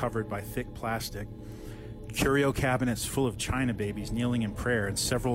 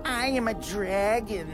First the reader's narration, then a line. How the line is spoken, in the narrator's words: squeaked the paunchy, balding occupant